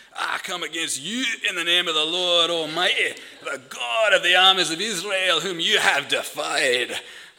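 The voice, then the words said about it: Attempted Scottish accent, self-described poor. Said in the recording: “they are made for a Scottish accent, these verses. I'm terrible at Scottish accent,”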